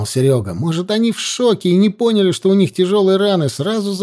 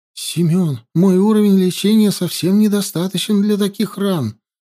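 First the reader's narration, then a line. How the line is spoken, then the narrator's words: Frightened. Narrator (Russian): испуганно сказала Ютян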